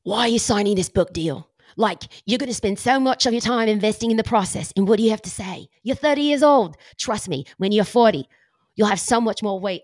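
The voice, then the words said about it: Put-on Australian accent. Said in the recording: “I have to do it with her Aussie accent ... this is where my accent just breaks down”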